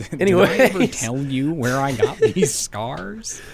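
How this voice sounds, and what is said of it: Joker impression, gravelly villain voice. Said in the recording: “A pretty good impersonation ... of the Joker.”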